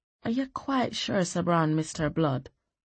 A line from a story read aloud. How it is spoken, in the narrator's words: she murmured